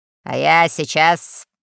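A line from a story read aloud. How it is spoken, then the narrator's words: Stern admiral. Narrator (Russian): сказал адмирал грозно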